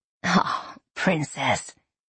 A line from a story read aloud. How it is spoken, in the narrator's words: he said, sighing